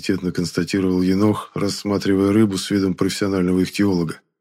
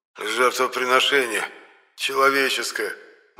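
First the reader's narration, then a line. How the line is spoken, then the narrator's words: Faint, dying voice. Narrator (Russian): умирающим голосом влез Моня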